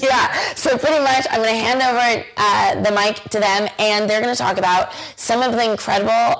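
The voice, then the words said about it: Strained, hoarse, fading voice. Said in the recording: “I'm losing my voice over it.”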